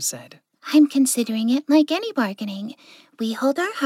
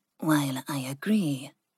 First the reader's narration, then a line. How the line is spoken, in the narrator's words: Ling said softly